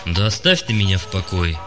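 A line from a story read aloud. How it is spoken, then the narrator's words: Gloomy. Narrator (Russian): мрачно сказал Юрига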